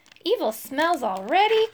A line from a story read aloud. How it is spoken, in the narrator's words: cried the rusty knight